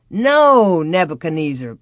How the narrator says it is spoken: Pa laughed

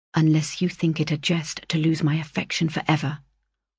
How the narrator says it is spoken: said I seriously, but as calmly as I could

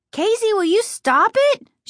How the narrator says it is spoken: she screamed

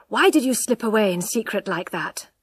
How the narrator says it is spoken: asked d'Urberville breathlessly

